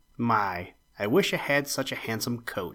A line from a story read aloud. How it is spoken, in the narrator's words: he said with a long sigh